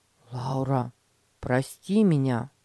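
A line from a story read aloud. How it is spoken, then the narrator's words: Sincere, sighing. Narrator (Russian): Петя вздохнул и искренне сказал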